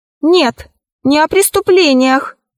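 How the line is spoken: Sorcerer shouting. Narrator (Russian): закричал колдун парфюмерий

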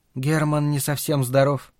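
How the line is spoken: Muttered. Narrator (Russian): пробормотала она

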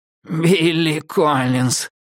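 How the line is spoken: Hoarse wheeze. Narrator (Russian): просипел Дреддлс

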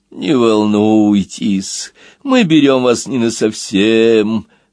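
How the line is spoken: Moaning wind. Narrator (Russian): простонал ветер

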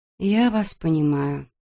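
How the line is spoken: Mumbling. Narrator (Russian): пробормотала Эбби

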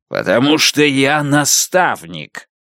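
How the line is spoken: Growl. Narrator (Russian): Звон прорычал

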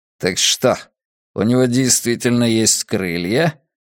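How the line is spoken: Cold inquiry. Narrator (Russian): холодно осведомился Ледяной Песок

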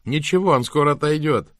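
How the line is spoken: Called after someone. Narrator (Russian): крикнула она вслед Ирмгард

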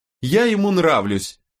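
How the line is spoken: Shrill squeal. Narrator (Russian): взвизгнула она

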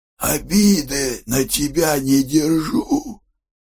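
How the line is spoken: Hoarse, stern man. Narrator (Russian): хрипит суровый

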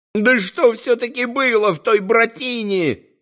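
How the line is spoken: Sudden yell. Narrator (Russian): Заорал вдруг Зосима

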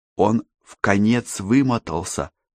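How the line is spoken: Whispered. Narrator (Russian): шепнула она Йону

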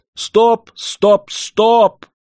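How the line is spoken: Shouting. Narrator (Russian): закричал я

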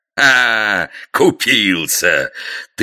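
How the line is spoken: Guffawing ruler. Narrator (Russian): захохотал государь

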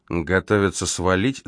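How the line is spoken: Thoughtful mutter. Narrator (Russian): задумчиво пробормотал Грей

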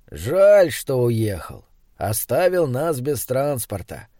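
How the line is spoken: Sighing. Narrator (Russian): вздохнул Крафт

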